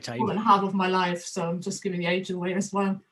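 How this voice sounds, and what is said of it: German accent. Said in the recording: “you can hear probably by my accent that I'm not originally or a native of this of the United Kingdom, but uh, originally from Germany”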